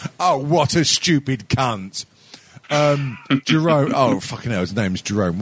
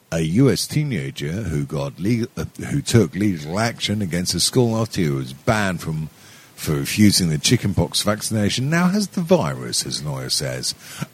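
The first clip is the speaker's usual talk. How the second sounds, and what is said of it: Slurred drunken newsreader voice. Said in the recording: “in my drunken news voice”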